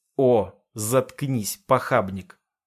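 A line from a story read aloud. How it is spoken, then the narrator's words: Hissing interruption. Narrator (Russian): Плутовка с шипением затыкает меня на полуслове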